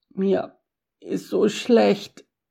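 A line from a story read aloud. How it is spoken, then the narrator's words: Nauseous croak. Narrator (German): krächzte Japhet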